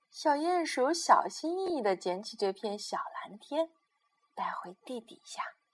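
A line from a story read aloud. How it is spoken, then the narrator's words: Quiet, soft. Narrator (Chinese): 小鼹鼠小声地说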